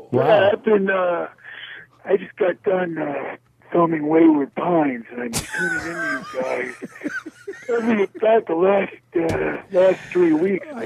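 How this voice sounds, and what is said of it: Tired, exhausted-sounding voice. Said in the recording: “You sound exhausted.”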